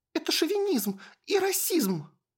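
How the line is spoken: Girl's shrill squeal. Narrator (Russian): взвизгнула девчонка

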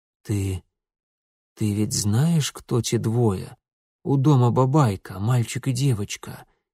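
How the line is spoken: Barely audible whisper. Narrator (Russian): едва слышно прошептал Митя

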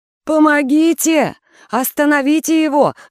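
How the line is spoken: Screaming in chorus. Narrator (Russian): завопили они хором

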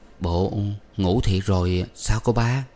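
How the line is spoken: Trembling voice. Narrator (Vietnamese): Anh khách giọng anh trở nên run run

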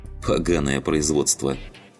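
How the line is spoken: Laughing. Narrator (Russian): рассмеялся Раф

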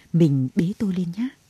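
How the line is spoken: Eerie whisper. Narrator (Vietnamese): Thứ bám lấy cổ anh thì thầm

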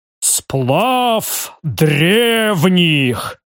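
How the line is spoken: Booming bass. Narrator (Russian): громогласно пробасил барон

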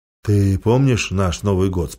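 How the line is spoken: Plain. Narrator (Russian): спросил он

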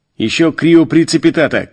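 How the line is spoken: Frantic shout. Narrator (Russian): крикнул я, лихорадочно

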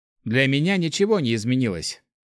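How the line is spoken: Dismissive snort. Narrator (Russian): хмыкнул Март

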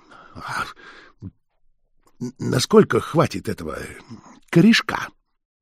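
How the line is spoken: Strained, struggling voice. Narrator (Russian): дар речи вернулся к кабачику, и он трудным голосом спросил

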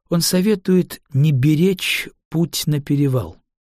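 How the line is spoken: Calm. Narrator (Russian): спокойно произнесла Линде

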